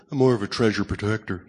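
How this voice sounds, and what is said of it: Closed-mouth, wealthy aristocrat voice. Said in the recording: “You close your mouth like you're Thurston Howell. ... You talk like a billionaire.”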